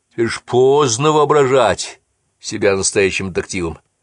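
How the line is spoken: Chuckling. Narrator (Russian): хохотнул он

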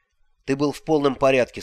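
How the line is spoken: Plain. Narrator (Russian): сказал я

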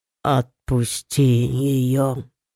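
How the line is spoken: Strained, forced out. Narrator (Russian): выдавил Лид

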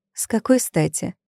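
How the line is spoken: Calm ironic question. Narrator (Russian): спросила она спокойно, даже иронично

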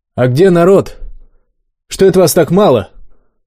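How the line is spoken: Loud inquiry. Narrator (Russian): громко поинтересовался

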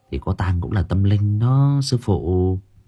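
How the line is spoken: Quiet voice. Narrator (Vietnamese): Chín nhỏ giọng

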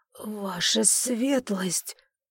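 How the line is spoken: Awed obedient whisper. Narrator (Russian): послушно прошептал он, трепеща от благоговения

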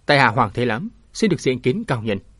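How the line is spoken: Stern voice. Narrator (Vietnamese): Thế Lãm nghiêm giọng

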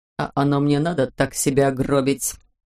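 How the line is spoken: Muttered. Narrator (Russian): буркнул что-то в духе

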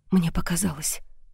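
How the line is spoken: Whispering. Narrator (Russian): прошептала я

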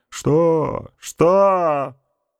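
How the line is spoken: Tense hoarse voice. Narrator (Russian): И напряженный, хриплый голос боцмана

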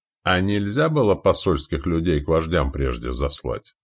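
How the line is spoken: Plain. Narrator (Russian): спросил командир степняков

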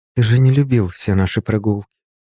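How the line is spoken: Uncertain, hesitant. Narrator (Russian): наконец неуверенно сказала она

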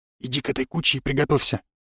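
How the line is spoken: Whisper. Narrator (Russian): шепнул он Храпченко

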